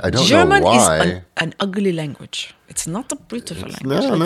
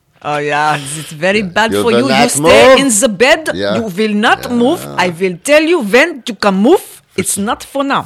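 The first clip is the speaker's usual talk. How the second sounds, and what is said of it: Put-on German accent, intimidating. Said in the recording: “German space thing... For some reason, that accent is intimidating.”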